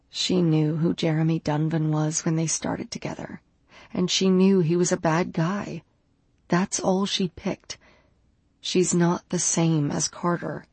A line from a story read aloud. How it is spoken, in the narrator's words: murmured